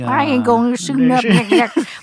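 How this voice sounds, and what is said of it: Old man hick voice. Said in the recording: “You can't take any accent on... that was just my old man voice... like a hick voice”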